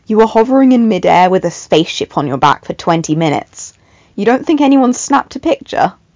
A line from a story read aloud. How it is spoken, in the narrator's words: Con groaned